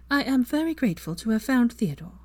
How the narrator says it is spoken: Hermione smiled politely and said in a calm tone

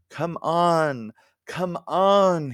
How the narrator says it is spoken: he moaned

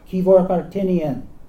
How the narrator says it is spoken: The tallest of the police officers called out from the doorway

